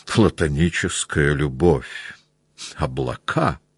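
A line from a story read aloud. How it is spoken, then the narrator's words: Mumbling. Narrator (Russian): пробормотал он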